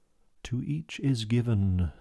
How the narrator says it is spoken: said I gently

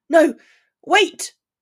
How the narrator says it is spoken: Ron yelled frantically

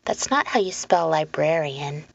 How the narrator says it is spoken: said Leonora

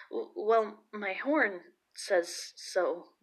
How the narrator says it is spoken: the poor timid boy stammered

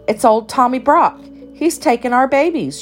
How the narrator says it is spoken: cried

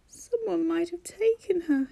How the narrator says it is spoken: he whimpered, his breath catching in shaky gulps

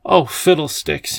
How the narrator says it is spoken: he said angrily

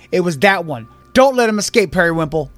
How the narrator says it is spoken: Bildith points to Kyber, exclaiming

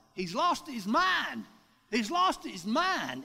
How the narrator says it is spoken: they started hollering

